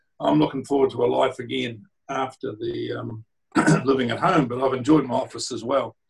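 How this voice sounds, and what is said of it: Croaky voice. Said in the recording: “My voice is a bit croaky”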